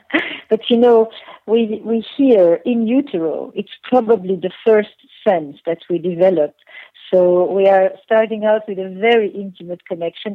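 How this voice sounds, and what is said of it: French accent. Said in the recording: “I can even make my French accent a little stronger”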